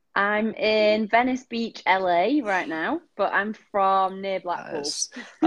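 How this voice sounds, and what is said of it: Strong northern English accent. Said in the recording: “you've got a very strong northern accent”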